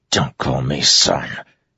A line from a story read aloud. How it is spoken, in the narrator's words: Adolin hissed